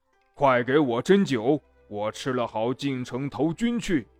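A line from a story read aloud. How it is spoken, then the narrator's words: Big man, loud call. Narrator (Chinese): 一个高大的红脸汉子高声叫道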